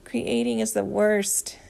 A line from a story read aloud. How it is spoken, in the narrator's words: Harry whines